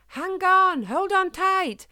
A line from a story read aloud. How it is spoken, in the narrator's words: Eddie cried out